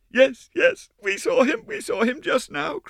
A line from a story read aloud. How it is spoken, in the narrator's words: cried the girls